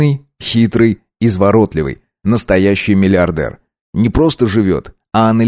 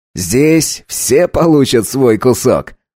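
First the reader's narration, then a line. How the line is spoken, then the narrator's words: Laughing again. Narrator (Russian): вновь рассмеялся Чарльз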